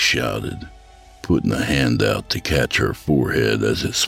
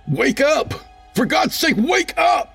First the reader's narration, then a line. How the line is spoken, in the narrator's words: Shauna screamed